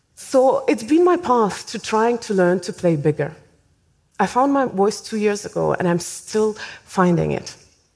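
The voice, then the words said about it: Thick, hard-to-place accent. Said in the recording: “my thick, unidentifiable accent”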